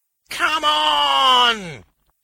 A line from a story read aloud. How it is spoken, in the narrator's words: he howled